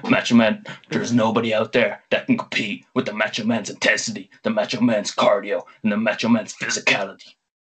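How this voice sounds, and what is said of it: Macho Man Randy Savage impression. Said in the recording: “drop the accent now ... I'm sure your throat is sore after that one ... he stuck with it ... it only dropped once”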